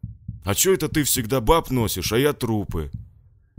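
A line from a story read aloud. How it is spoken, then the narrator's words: Offended grumble, big fellow. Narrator (Russian): обиженно пробурчал детина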